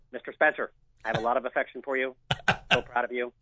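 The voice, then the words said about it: Imitates another person's voice. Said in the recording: “I'm gonna do my Fred impersonation... WLKY legendary sportscaster Fred Calgio”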